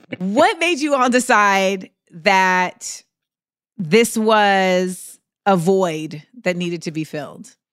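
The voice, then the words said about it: Loud, yelling voice. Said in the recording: “I'm yelling. I'm like literally yelling.”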